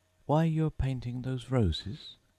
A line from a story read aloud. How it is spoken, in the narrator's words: said Alice, a little timidly